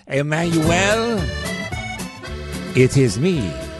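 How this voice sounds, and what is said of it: Put-on French accent. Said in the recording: “it's the best French accent he's heard”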